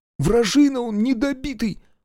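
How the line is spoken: Suppressed sob. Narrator (Russian): Колька подозрительно всхлипнул

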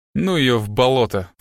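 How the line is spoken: Snorting. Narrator (Russian): фыркнул Страйк

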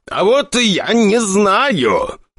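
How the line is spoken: Near shouting. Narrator (Russian): Николай Григорьевич почти кричал

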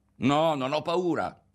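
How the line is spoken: Shouted at full breath. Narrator (Italian): gridò con tutto il fiato

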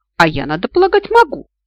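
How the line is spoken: Skeptical snort. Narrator (Russian): скептически фыркнула я

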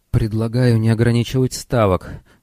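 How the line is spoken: Pleading voice. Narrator (Russian): сказал он просящим голосом

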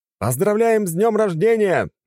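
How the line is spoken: Shouted in unison. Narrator (Russian): крикнули мы дружно

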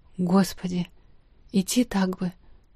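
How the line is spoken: Whispered. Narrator (Russian): прошептала

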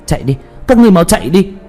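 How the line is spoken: Loud shout. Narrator (Vietnamese): Tuyết Kỳ hét lớn

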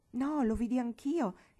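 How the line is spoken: Sulky, offended exclamation. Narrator (Italian): esclamò con aria un po' imbronciata un tantino offesa

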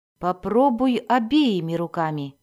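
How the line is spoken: Plain. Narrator (Russian): сказал он

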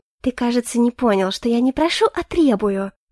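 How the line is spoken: Gentle voice, interrupting. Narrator (Russian): Ласковым голосом перебила меня Сиринити

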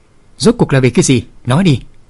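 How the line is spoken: Angry, trembling lips. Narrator (Vietnamese): Dáng vẻ Bạch Y thư sinh rất phẫn nộ, đôi môi bắt đầu run rẩy nói

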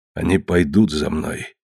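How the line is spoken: Quietly spoken. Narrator (Russian): тихо сказал Уахинеп

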